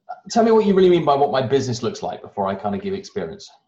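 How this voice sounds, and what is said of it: Non-American accent. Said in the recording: “You obviously have a much much sexier accent than I do, so you're not from here.”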